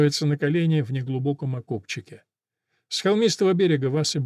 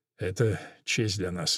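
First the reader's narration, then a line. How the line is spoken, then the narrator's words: Muffled, hollow. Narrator (Russian): глухо отвечает Антонио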